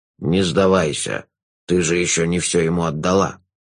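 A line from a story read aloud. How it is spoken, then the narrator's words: Low voice, elephant. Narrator (Russian): низким голосом сказал слон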